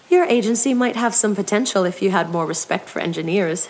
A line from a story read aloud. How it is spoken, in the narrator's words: said